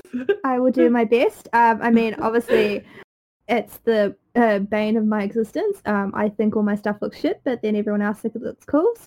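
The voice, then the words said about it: New Zealand accent. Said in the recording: “is in New Zealand right now. I'm not sure if that was obvious by her accent.”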